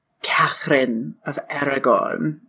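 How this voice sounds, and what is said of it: Failed attempt at Spanish accent. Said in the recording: “That was not a Spanish accent. I don't know what the fuck that was”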